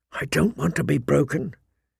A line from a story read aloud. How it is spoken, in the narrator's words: he whispered fiercely